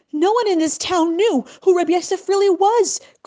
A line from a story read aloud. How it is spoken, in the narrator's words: cried Nachum in distress